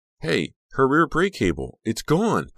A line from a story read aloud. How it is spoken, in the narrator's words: Becca shouted